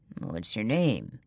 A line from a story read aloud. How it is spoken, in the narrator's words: asks, his voice low and rough